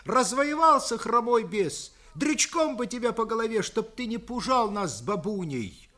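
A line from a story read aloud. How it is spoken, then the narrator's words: Ringing, agitated childlike voice. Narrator (Russian): А по-детски глубоко взволнованный тем, что дед собирался бить всех и орал на весь курень, дрожа ноздрями, вдруг звонко сказал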